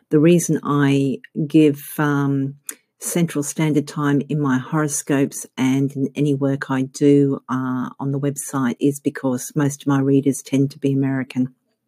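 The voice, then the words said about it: Australian accent. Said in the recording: “You can probably tell from my accent that I'm not American, I'm actually Australian.”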